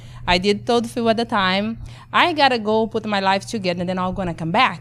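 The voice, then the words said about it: Brazilian accent. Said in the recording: “born and raised in Brazil with my accent”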